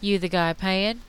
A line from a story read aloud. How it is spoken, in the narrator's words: she asked